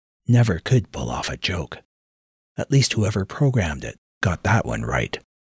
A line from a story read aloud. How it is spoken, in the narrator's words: Jason whispered